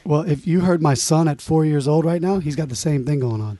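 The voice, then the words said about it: Raspy, smooth rock-music voice. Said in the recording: “Where'd that voice come from, dude? That's the perfect voice for rock music. ... It was all raspy. ... Because it's smooth, isn't it?”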